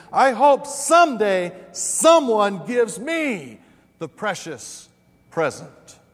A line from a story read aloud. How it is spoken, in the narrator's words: exclaimed